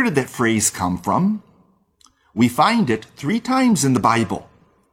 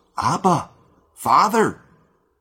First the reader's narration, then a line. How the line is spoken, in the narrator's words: the child of God, in excitement, in love, or perhaps in trouble, cries out